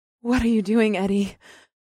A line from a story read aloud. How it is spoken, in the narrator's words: Ipseth breathed, and her tone was confused and excited at the same time